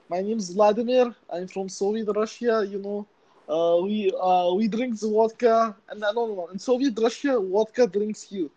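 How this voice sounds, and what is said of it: Put-on Russian accent. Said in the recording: “accent off ... give me an accent ... Do your Russian one.”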